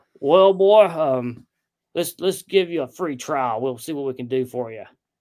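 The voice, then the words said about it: Impression of Steve Bowman. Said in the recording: “going to do my Steve Bowman voice.”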